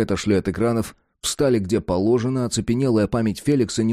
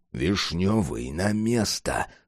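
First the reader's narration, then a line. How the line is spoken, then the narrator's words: Fierce, through gritted teeth. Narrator (Russian): свирепо процедил Джек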